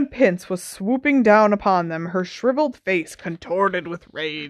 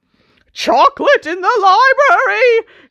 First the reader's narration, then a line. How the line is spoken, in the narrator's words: she screamed